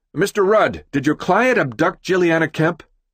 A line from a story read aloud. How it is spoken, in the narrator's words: One yells